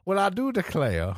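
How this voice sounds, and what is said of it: Put-on Savannah Georgia Southern accent. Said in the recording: “read this in a Savannah, Georgia accent ... Got to get into character ... That's ... getting into character.”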